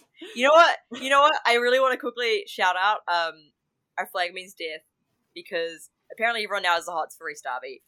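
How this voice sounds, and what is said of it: New Zealand accent. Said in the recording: “how the fuck does my accent put me in? ... He's the epitome of New Zealand cringe ... apparently people now think my accent's really hot”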